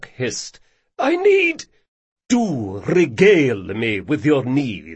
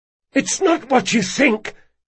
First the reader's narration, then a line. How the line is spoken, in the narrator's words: he gasped